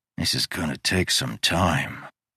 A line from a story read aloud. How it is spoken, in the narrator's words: muttered